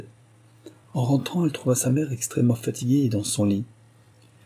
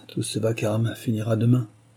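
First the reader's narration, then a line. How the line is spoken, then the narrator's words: Princess sighing. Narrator (French): soupira la princesse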